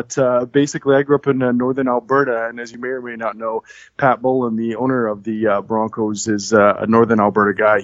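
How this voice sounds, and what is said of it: Canadian accent. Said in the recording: “as you can probably tell by the accent, I'm assuming, ... is from Canada”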